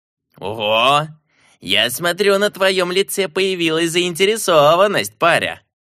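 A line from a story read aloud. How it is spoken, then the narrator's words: Chuckling. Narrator (Russian): хохотнул он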